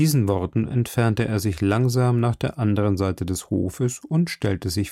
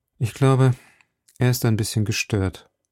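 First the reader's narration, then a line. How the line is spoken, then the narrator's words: Sad. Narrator (German): sagte traurig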